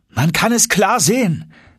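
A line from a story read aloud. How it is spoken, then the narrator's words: Calling out. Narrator (German): rief ich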